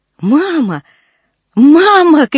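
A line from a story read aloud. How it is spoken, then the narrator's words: Shouting. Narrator (Russian): кричала Люси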